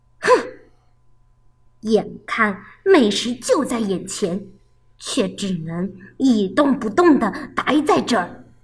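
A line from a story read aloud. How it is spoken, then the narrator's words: Annoyed muttering. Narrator (Chinese): 狐狸窝火的嘟囔着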